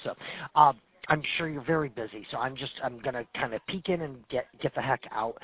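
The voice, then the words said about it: Hoarse, losing his voice. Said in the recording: “I lost my voice”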